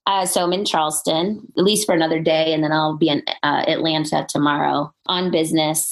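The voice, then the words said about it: Congested, stuffy voice. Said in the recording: “your listeners can probably hear it in my voice. I have like some congestion ... congested, dry cough”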